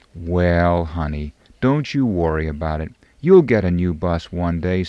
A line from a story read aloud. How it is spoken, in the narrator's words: said his wife